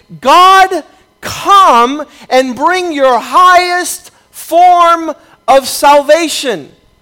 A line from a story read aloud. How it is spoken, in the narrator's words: a shout of victory saying